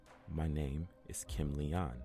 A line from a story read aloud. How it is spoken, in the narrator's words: the angel said